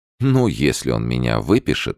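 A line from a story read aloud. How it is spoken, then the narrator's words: Plain. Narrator (Russian): сказала девушка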